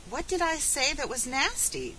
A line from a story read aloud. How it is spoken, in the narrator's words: cried Felicity